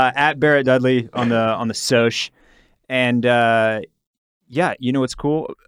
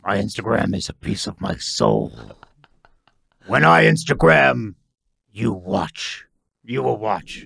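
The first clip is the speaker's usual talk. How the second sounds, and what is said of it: Bear character voice. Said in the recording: “the bear voice”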